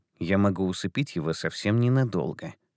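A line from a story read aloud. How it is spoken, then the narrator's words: Whispered in ear. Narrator (Russian): шепнул лис Тайке на ухо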